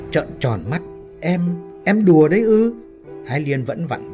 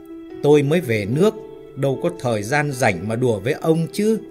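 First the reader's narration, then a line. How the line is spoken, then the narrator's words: Irritated, raised voice. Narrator (Vietnamese): Ái Liên cũng lên giọng gắt gỏng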